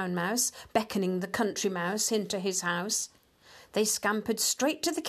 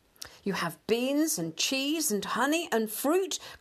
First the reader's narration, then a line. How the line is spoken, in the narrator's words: cried the Country Mouse